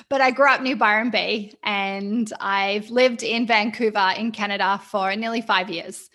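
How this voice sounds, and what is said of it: Mixed Australian-Canadian accent. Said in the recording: “I am Australian. I have a quite eclectic accent that people sometimes aren't sure”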